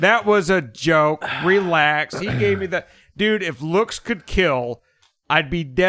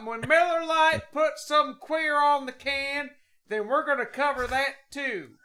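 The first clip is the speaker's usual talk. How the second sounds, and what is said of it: Put-on Southern bigot accent. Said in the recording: “I did a southern accent, a bigot accent.”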